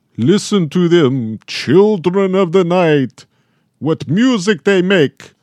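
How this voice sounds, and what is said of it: Bela Lugosi Dracula impression. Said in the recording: “It's very good. ... The accent is that's where it kind of came from. I mean, it came from Lugosi.”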